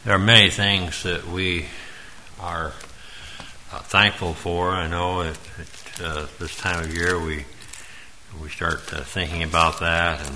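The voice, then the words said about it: Strained, hoarse voice. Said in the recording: “Losing my voice already.”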